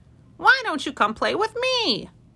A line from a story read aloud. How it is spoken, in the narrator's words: cried a squirrel